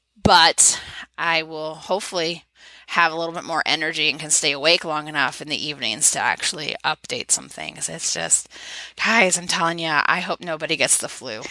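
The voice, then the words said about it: Sore, failing voice. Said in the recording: “my throat hurts and my voice is going”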